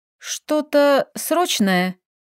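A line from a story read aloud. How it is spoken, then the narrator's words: Tired, stifling a yawn. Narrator (Russian): Сцеживая зевок в кулак, уточнила я устало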